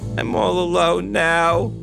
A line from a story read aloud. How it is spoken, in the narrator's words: cried